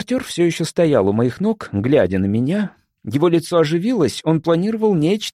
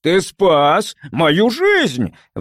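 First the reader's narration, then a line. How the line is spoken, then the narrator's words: Shout. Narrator (Russian): вновь крикнул он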